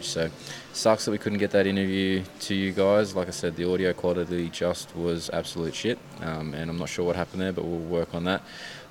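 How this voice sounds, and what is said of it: Raspy, strained voice. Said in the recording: “My voice doesn't sound so fantastic this morning. It's a bit raspy, and that's partly from last night as well ... We're yelling quite a bit”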